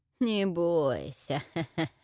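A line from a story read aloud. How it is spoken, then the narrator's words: Gurgling laugh, witch. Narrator (Russian): забулькала, смеясь ведьма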